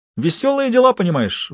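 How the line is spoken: Exclaim. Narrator (Russian): воскликнул он

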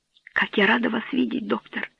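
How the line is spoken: Whisper. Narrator (Russian): прошептала Берта

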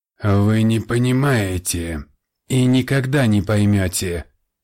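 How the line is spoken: Dull, muffled reply. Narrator (Russian): глухо отозвался он

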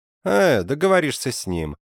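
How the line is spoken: Dismissive. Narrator (Russian): сказал Моссель пренебрежительным тоном

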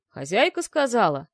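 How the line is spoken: Monotone deep bass. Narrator (Russian): монотонно пробасил он

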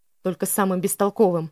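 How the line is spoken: Snapping retort. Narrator (Russian): огрызнулся Митчелл

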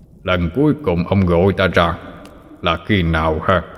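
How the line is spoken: Deep gruff voice. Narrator (Vietnamese): Một giọng nói ồm ồm vang lên

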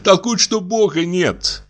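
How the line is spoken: Laughing. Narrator (Russian): продолжала Иловайская, тоже засмеявшись

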